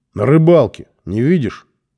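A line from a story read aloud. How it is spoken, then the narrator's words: Said with a snort. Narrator (Russian): сказал он, хмыкнув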